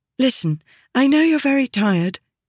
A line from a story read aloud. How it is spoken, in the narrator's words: she said nervously